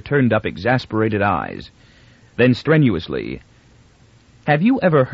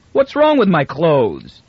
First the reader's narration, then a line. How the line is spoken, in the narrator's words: demanded Miz hotly